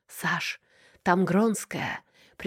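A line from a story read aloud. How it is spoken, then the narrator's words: Whispered. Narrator (Russian): шепнула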